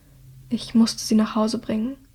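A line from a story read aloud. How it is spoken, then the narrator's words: Very quiet, barely audible. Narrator (German): sagt Hilda so leise, dass niemand außer Dreas hören kann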